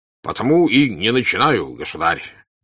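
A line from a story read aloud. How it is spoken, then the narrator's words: Sonorous, deliberately clear voice. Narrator (Russian): сказал звучным голосом Кутузов, как бы предупреждая возможность не быть расслышанным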